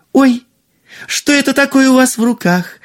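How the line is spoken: Exclaimed. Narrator (Russian): воскликнула принцесса

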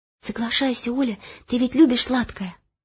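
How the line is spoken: Whisper. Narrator (Russian): Паш шепнул

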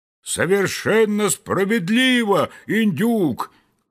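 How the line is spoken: Loud shout in unison. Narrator (Russian): крикнули все разом так громко

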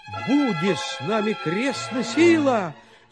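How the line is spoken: Shout. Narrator (Russian): закричал тогда Гаврила

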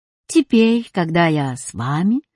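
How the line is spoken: Calm. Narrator (Russian): спокойно сказал учебник географии

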